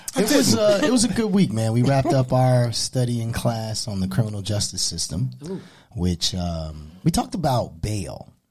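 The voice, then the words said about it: Deep baritone radio voice. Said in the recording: “he came in with that bullshit voice on today ... What is this sexy ass shit? ... What is this baritone shit you have going on today? ... It's called it radio voice.”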